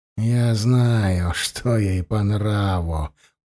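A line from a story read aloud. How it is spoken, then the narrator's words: Purring. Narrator (Russian): промурлыкал Учай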